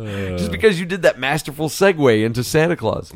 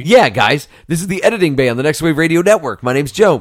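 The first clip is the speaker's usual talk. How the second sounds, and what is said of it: Exaggerated radio announcer voice. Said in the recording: “Why are we doing our radio voice all of a sudden?”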